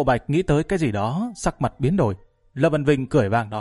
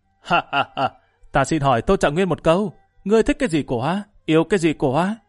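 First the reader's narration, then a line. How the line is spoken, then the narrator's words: Changed voice, laughing loudly. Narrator (Vietnamese): Gã chuyển giọng cất tiếng cười lớn nói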